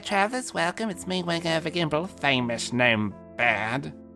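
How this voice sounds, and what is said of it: Raised-pitch character voice. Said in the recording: “I just increase the pitch. And that's the only editing I do for Wingover's voice. It is the voice that I can do normally.”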